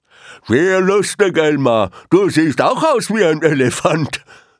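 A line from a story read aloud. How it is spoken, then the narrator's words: Mocking hippo. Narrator (German): spottete eines der Flusspferde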